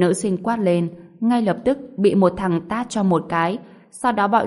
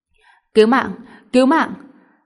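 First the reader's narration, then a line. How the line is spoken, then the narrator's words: Terrified scream. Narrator (Vietnamese): Một tiếng hét kinh hoàng la lên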